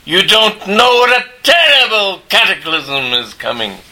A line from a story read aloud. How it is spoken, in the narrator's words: he shouted